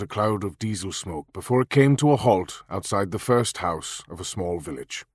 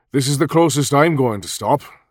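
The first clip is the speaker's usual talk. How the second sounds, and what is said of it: Lilting Welsh accent. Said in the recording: “the driver said in a lilting Welsh accent.”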